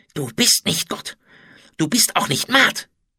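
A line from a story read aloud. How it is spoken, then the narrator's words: Hissed hatefully. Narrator (German): zischte er voller Hass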